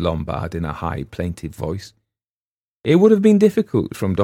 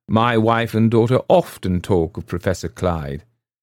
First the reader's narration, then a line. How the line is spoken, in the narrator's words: he added dryly